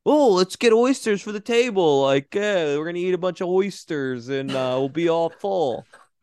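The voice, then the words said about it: Imitates another person's voice, Philadelphia accent. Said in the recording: “What is that accent? I feel disrespected as just a member of Philadelphia.”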